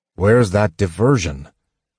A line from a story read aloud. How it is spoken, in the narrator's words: Sturm asked, his voice echoing